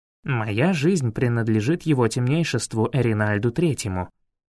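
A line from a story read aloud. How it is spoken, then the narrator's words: Calm. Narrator (Russian): спокойно произнес Фейри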